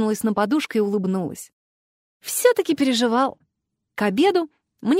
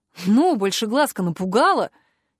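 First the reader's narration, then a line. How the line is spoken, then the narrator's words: Loud voice. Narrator (Russian): громко произнес Вик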